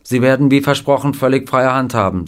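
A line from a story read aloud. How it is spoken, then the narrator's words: Plain. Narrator (German): sagte sie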